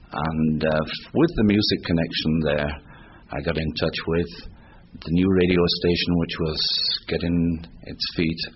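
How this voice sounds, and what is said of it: Yorkshire-accented English. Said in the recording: “with me speaking a little English, maybe with a Yorkshire accent”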